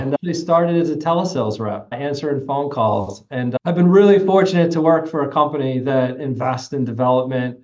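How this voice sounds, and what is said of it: Northeastern American accent. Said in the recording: “you might tell from my accent, I'm from the Northeast”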